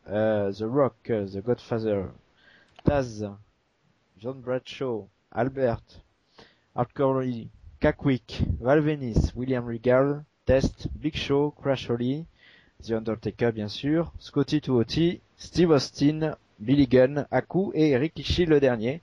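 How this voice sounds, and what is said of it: Exaggerated forced accent. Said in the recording (French): “Quel accent. ... j'ai forcé, là. Enfin, on me reproche souvent l'accent, là, sur le coup, j'ai forcé”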